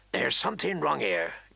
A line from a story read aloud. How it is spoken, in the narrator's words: Garrett muttered